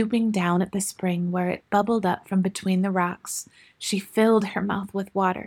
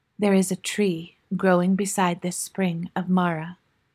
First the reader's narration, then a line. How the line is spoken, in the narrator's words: answered the voice